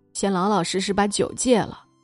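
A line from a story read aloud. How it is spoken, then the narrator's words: Warm chuckling. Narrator (Chinese): 他呵呵的笑了……说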